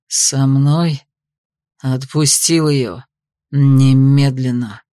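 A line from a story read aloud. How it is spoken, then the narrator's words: Hissed. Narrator (Russian): прошипел Дерберг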